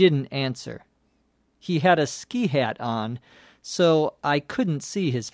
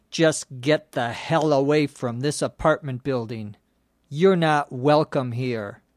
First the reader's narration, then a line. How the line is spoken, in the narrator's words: he said